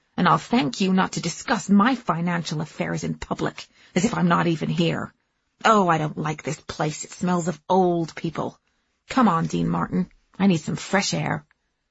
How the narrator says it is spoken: she snapped

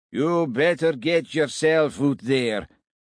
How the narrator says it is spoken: said a slurred voice that Scott recognised

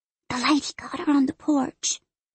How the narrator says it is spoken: Fern whispers through her fingers

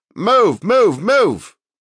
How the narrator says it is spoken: Sarge continued to shout

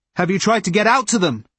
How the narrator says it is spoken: Ross shouted

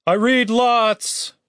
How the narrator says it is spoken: Chaz shouted after her

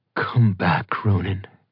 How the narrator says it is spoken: Bride said softly

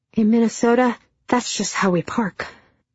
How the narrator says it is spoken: I reply while panting

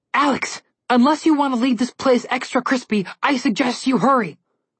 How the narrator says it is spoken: Connor yelled

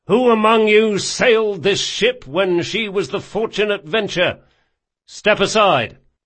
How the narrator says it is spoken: he shouted

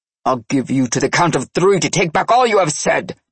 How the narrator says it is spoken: Nikolai growled

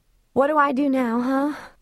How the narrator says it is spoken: she asked in a teary, tired voice

